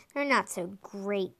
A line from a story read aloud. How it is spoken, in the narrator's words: Nutkit muttered